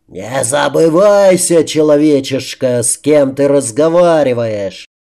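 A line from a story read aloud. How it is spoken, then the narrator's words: Monster's furious snarling roar. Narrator (Russian): взревело чудовище, злобно оскалившись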